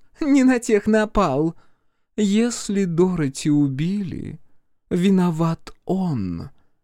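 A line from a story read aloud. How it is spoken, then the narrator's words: Slow speech. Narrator (Russian): медленно проговорила Бренда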